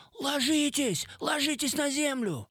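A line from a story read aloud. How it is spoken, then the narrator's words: Yelled. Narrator (Russian): я заорал узбекам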